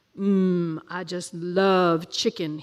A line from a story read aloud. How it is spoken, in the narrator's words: he drawled, biting off a piece